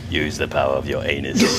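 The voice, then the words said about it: Imitates Palpatine's voice. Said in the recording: “in his Palpatine voice”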